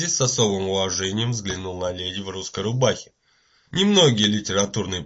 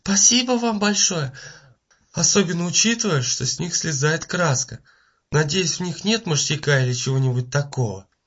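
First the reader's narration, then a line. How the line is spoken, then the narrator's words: Hoarse whisper. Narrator (Russian): хрипло зашептала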